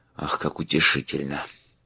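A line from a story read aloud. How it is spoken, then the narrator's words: Mutter. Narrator (Russian): пробормотал Майлз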